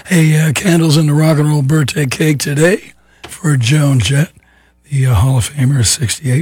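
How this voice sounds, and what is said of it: Rough, strained voice. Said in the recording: “give my voice a rest ... Sounded good yesterday, they tell me, but kind of rough today”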